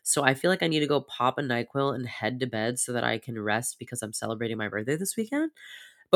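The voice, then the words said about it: Congested, sniffly voice. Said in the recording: “as you can hear, my voice is just getting more congested and more sniffly”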